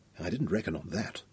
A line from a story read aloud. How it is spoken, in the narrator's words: Nicholas whispered